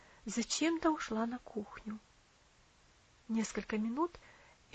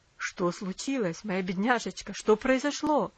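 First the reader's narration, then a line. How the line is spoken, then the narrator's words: Alarmed, surprised exclamation. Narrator (Russian): воскликнул он с тревогой и удивлением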